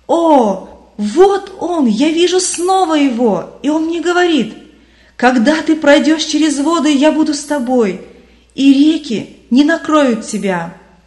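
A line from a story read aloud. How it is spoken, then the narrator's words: Loud jubilant exclamation. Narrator (Russian): Вдруг христианин громким ликующим голосом воскликнул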